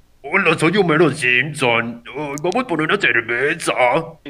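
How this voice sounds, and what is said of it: Imitates cartoon character Homer Simpson. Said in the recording (Spanish): “estoy practicando hacer Homero ... Imitar la voz ... Sí, suena similar.”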